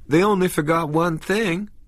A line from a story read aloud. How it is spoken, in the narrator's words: Vicky said, still giggling helplessly